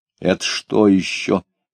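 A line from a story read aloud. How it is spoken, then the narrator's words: Angry question. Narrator (Russian): сердито спросила она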